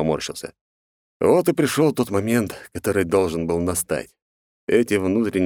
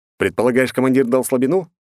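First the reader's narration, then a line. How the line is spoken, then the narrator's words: Questioning snort. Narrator (Russian): вопросительно хмыкнул я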